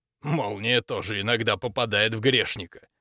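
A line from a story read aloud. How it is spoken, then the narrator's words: Snorting, dismissive. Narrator (Russian): хмыкнул он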